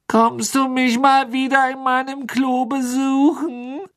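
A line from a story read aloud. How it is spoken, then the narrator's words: Sad, whining voice. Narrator (German): fragte die maulende Myrte mit trauriger Stimme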